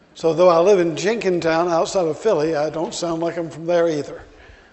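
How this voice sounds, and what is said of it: Alabama Southern US accent. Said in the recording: “my accent. This is not an Irish accent. ... I was born in Birmingham, Alabama, and that kind of stuck no matter where I've gone”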